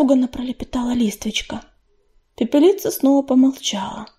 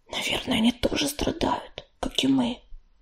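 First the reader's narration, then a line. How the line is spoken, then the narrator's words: Whisper. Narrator (Russian): прошептала Листвичка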